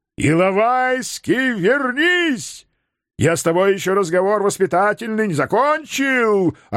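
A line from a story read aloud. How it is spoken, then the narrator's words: Yelled after someone. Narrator (Russian): орал вслед мой знаменитый родственник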